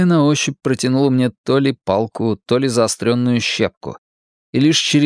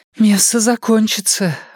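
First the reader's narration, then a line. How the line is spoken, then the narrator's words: Breathy exhale. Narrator (Russian): выдохнула Энея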